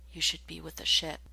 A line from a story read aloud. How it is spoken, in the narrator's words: his voice came out as a barely audible whisper